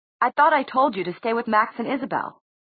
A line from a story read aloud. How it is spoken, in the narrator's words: Alec snapped at him